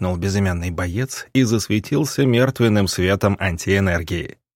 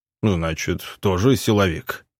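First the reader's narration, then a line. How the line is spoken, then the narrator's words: Amused grunt. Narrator (Russian): хмыкнул негр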